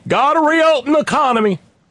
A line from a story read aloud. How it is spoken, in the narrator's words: hooting and hollering